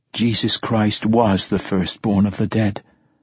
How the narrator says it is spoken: Aeneas said softly

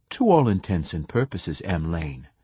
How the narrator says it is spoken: it said,

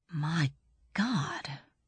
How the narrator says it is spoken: breathed Braun Lamia

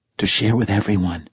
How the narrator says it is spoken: she whispered, serious again

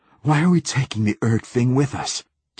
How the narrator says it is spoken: gasped Hoyt

